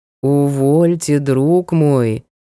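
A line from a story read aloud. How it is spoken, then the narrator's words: Drawl. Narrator (Russian): протянул ловец душ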